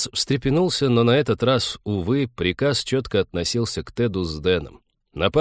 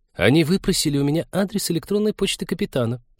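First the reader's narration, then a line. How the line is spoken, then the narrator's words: Giggling. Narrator (Russian): хихикнула зоолог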